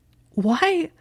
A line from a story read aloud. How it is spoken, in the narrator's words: Hermione choked